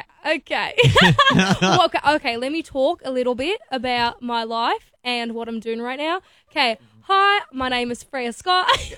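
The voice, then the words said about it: Put-on Australian accent. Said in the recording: “can you do a good Australian accent? ... How well do you do an Aussie accent? ... That was really good.”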